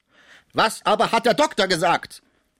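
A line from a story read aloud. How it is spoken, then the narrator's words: Angry question. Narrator (German): fragte wütend Schmucke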